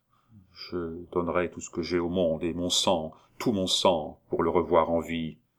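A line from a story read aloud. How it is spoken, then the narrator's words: Count murmuring again. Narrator (French): Le comte murmura pour la seconde fois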